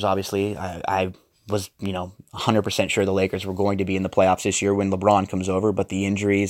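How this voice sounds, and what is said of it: Dejected, downcast voice. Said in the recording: “You could hear the dejection in my voice.”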